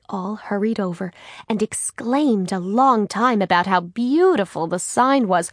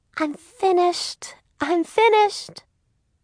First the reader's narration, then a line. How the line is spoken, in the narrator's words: Beth Ellen squeaked